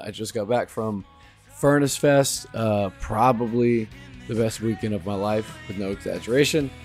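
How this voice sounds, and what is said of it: Hoarse, nearly lost voice. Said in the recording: “As you can tell, my voice is completely gone.”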